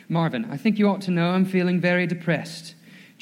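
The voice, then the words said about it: Put-on accent reading quotes. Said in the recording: “I'm going to give you a little accent this morning.”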